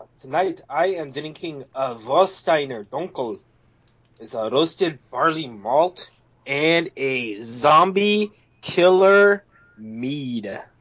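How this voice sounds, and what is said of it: Put-on German then Scottish accent. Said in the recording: “breaking out the Scottish accent ... It was my partial German, but then after Dunkel just went Scottish”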